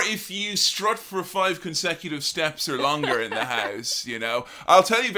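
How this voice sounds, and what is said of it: Usual voice. Nothing is said of it.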